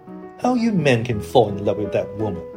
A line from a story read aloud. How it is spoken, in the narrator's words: exclaimed the old lady